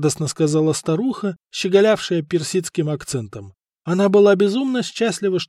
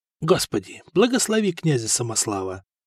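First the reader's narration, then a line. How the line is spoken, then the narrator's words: Whisper. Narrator (Russian): прошептал Коста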